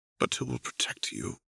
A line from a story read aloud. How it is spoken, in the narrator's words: Renata murmured